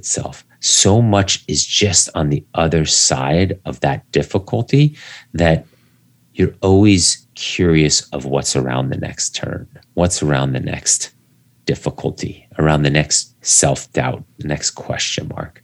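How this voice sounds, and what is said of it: Soothing late-night DJ voice. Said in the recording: “it was coming across in your late night DJ voice ... your clarity and just the overall soothingness”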